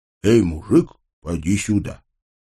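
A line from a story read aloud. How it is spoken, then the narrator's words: Quiet call. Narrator (Russian): меня негромко окликнули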